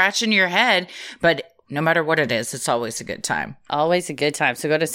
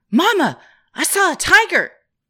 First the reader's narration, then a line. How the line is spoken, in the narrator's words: yelled